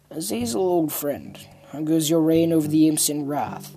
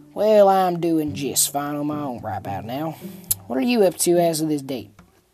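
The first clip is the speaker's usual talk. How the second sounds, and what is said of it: Low southern accent. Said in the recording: “he spoke with a low and southern-type accent”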